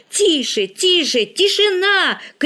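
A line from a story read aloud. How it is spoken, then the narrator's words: Shout. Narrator (Russian): крикнул Игорь у окна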